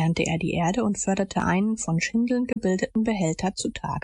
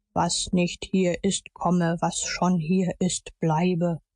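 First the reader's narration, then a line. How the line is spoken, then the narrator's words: Solemn declaiming. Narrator (German): deklamierte mit feierlicher Stimme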